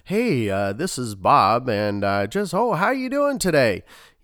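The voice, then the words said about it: Mock telemarketer voice. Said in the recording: “If you sound like a telemarketer,”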